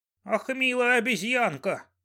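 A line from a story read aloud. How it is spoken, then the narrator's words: Whining leopard. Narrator (Russian): заскулил леопард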